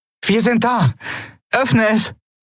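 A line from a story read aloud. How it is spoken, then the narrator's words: Called out. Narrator (German): rief Endriel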